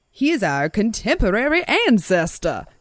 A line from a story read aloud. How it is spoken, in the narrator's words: he exclaimed